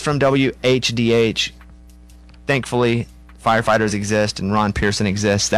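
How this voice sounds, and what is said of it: Usual voice. Nothing is said of it.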